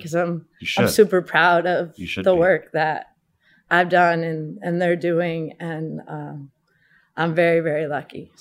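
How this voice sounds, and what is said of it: Emotional, voice choked up. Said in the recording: “sorry, I get a little emotional about it”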